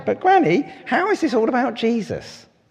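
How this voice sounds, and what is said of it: Not-very-good impression of children. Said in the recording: “It's not a very good impression of them, sorry.”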